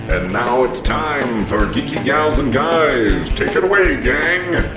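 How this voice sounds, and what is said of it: Deep announcer voice. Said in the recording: “Mr. Deep Voice fella. You have such a nice deep voice.”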